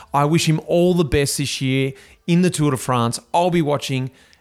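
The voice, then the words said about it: Excited voice. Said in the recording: “you can hear it in my voice. I'm so excited.”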